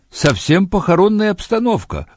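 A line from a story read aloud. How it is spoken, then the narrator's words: Exclaimed. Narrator (Russian): воскликнул он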